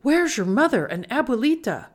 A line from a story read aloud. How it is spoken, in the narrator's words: Esperanza whimpered